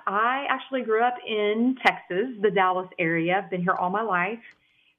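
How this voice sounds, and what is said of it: Texan country twang. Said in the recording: “That's that country twang you hear coming out of my vernacular.”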